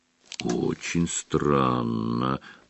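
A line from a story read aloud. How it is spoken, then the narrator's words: Drawling. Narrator (Russian): протянул Фредди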